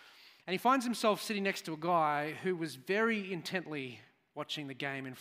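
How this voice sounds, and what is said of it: Usual voice. Nothing is said of it.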